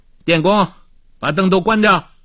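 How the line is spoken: Calling out. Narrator (Chinese): 他又叫道

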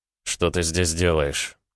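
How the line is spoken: Grumbling mutter. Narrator (Russian): пробурчал Рома

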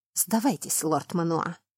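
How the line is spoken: Hoarse wheezing voice. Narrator (Russian): Голос захрипел

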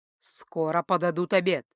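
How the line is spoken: Strange lifeless voice. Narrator (Russian): странным безжизненным голосом сообщила она

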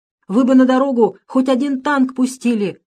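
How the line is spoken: Angry shout. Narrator (Russian): закричал обозлившийся старшина

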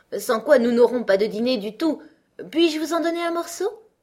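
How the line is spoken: Sulky queen grumbling. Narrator (French): la reine prit un air maussade et grommela

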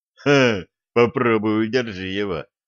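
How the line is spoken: Snort. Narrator (Russian): фыркнул Самсон

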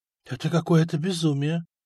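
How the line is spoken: Dry-lipped whisper. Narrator (Russian): шептал пересохшими губами Стефан

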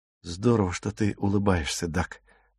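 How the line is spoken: Muttering. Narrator (Russian): пробормотал он

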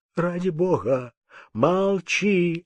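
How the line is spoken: Trembling voice. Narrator (Russian): отвечал Земский дрожащим голосом

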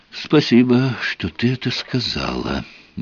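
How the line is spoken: Soft thanks. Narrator (Russian): мягко поблагодарил

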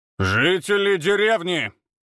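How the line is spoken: Loud proclamation. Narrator (Russian): громко возгласил Ефим

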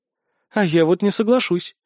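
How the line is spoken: Calm. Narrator (Russian): произнесла Ольви спокойно

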